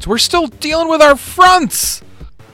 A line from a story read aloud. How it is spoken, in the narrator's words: She shouts